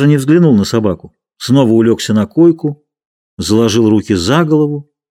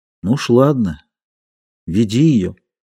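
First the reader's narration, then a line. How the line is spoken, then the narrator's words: Quiet, hopeless. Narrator (Russian): Плюм сказал тихо и безнадежно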